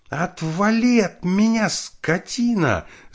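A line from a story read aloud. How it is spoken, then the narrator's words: Angry scream. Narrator (Russian): закричала она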